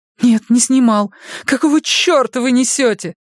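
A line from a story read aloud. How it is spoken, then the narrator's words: Moaning. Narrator (Russian): Простонала София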